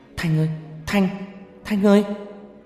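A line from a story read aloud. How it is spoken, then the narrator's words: Shouting. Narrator (Vietnamese): Tôi hét lên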